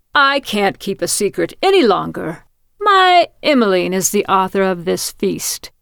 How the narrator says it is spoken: he exclaimed proudly

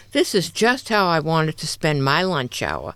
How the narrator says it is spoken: she grumbled

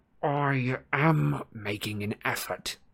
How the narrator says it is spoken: he said through clenched teeth

